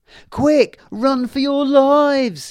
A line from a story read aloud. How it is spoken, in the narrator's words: he shouted